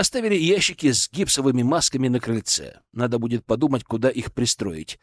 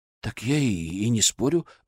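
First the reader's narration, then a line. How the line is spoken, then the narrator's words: Timid, defensive. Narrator (Russian): робко защищался Иван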